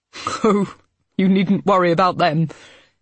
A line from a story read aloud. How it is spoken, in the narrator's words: Abel said with a laugh